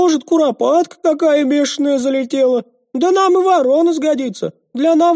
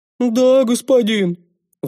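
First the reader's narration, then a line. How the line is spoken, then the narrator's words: Sighing. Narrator (Russian): вздохнул тезка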